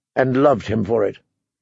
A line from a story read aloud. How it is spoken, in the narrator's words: she said sharply